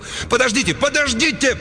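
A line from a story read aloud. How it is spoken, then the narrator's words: Yelling. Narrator (Russian): Кент завопил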